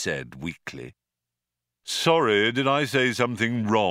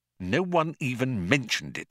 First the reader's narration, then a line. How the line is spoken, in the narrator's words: muttered Arthur irritably